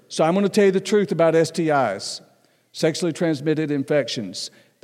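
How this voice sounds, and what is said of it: Southern American accent. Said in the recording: “I still have a southern accent”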